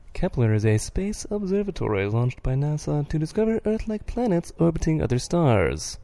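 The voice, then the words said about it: A poorly done space-announcer voice. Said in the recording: “In my best space voice ... That was the worst space voice I've ever heard in my entire life.”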